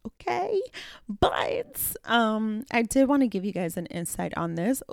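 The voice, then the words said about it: Cracking, teary voice. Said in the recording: “my voice is cracking. I'm getting a little teary-eyed.”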